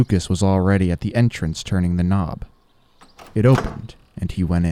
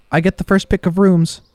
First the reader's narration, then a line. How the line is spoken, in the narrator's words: called out